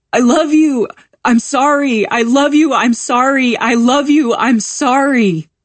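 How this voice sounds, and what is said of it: Shouting, voice fading with each repetition. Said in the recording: “my brother shouts after me ... His voice gets smaller with each repetition until it's no longer in the air”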